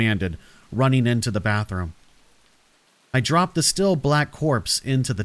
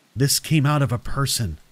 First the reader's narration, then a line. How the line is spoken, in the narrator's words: I said, staring grimly